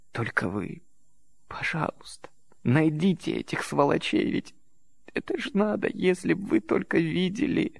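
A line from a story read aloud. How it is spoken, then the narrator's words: Sobbing. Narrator (Russian): Она всхлипнула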